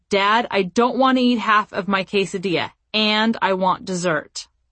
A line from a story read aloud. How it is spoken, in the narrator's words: my son said to Scott in an angry tone of voice